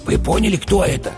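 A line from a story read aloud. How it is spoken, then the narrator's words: Whispered question. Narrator (Russian): шепотом спросил бык-тупогуб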